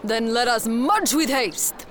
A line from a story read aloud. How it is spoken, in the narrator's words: Alfonso shouts